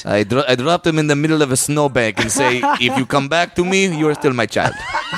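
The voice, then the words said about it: Put-on Russian accent. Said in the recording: “I'm just going to have the Russian accent ... I like you with that accent”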